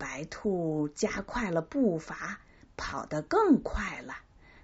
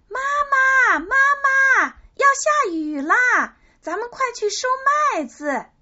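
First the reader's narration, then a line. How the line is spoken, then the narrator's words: Rabbit calling from afar. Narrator (Chinese): 小白兔见了，老远就喊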